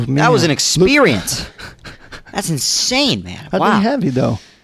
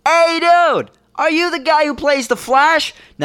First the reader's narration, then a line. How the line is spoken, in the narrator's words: I shouted